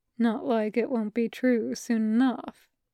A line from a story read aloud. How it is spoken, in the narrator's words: Shota said, softly enough that if any one of the cats had made a sound, Hisashi would have missed it